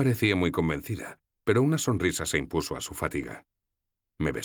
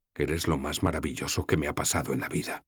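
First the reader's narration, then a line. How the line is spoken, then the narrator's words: Whispering. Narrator (Spanish): susurré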